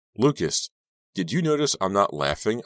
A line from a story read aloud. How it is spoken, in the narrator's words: I snapped angrily